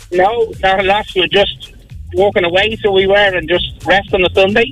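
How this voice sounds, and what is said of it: Irish Skerries accent. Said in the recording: “I love that Skerries accent. I'm sorry, I just love it.”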